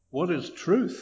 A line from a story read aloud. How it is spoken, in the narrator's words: Pilate asked